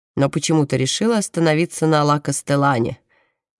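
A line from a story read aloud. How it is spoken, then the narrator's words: Mocking from behind. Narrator (Russian): насмешливо произносит за их спиной Паулина Марина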